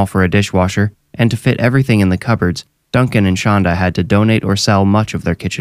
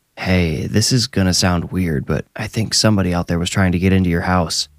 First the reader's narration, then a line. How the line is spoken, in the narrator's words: he said quietly through a broad mask of a smile